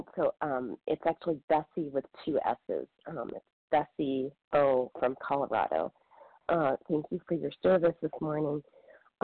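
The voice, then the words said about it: Congested voice from a cold. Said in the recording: “excuse me, I've got a cold”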